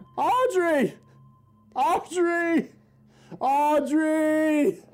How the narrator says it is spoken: He yells

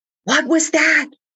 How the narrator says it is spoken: asked frantically

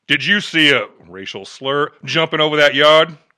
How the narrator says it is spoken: Officer Sparks barked at Travers

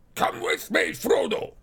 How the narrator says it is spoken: cried the dwarf

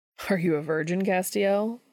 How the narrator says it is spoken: Dean says, laughing

